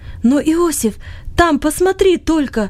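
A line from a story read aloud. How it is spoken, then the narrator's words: Sudden cry. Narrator (Russian): Вдруг вскрикнул он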